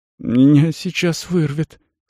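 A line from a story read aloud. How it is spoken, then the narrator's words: Weak voice. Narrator (Russian): слабым голосом произнес Рикард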